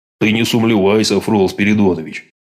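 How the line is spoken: Firm confident bass. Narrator (Russian): С твердой уверенностью в голосе пробасил Иван Кузьмич

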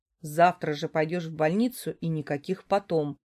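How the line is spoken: Man declaring sternly. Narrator (Russian): строго заявляет мужчина

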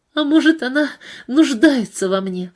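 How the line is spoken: Sobbing. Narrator (Russian): всхлипнула Пейтон

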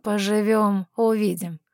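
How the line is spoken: Skeptical snort. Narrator (Russian): хмыкнул он

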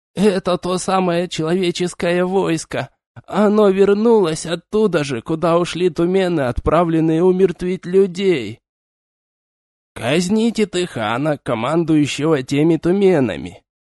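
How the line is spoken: Lazy, through clenched teeth. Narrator (Russian): Лениво процедил хан

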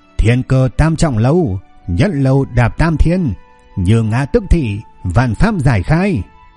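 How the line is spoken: Old man shouting loudly. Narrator (Vietnamese): ông lão ... lớn tiếng hô lên

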